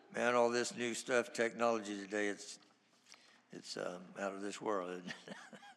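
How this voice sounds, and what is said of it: Slightly hoarse voice. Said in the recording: “I'm still a little bit hoarse”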